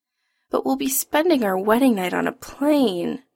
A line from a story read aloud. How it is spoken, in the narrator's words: Adam whines